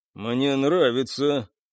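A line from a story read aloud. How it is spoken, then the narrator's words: Dry approval. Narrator (Russian): сухо одобрил Гвен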